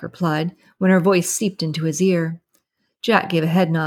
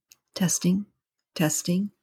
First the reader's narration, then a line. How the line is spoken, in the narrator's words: whispered